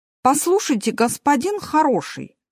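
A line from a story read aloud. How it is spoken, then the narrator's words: Irritated. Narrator (Russian): раздраженно сказал Мартин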